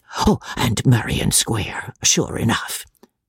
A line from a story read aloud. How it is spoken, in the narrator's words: the Major whispered